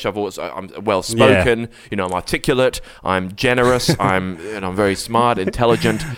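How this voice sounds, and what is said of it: English accent. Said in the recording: “you can tell my accent is, I'm quite English”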